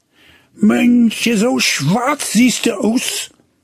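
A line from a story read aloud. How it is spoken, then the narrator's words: Startled cry. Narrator (German): rief erschrocken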